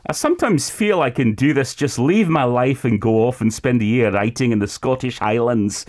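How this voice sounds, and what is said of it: Put-on Scottish accent, Alex Ferguson-like. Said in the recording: “I feel like I need to read this with an accent ... I felt like Sir Alex Ferguson was in the studio there ... Going to the Scottish Highlands, I put on the accent like that.”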